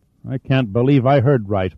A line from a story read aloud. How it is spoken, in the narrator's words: Metz mumbled numbly